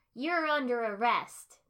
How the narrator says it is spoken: Naruto shouted down at the group

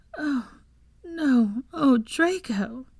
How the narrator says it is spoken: moaned

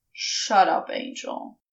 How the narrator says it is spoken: mumbled

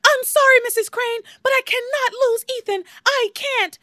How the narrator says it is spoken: Teresa yells

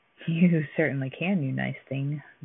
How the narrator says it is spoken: giggled the orphan keeper's assistant inwardly

